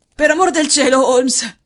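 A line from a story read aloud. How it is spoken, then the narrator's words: Hoarse exclamation. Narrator (Italian): esclamò con voce roca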